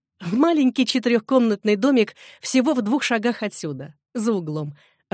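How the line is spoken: Laughing. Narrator (Russian): рассмеялась Эдна

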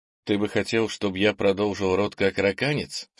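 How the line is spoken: Plain. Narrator (Russian): спросил Кенни

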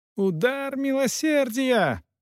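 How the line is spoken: Shouting. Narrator (Russian): закричал неизвестный господин

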